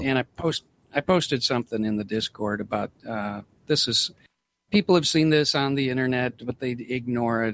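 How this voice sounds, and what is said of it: Northern US accent. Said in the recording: “I'm a Yankee, of course. Probably most people can tell by my accent. I'm from the North.”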